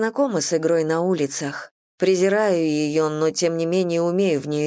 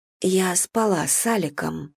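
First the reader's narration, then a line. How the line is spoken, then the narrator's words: Quiet. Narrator (Russian): тихо говорю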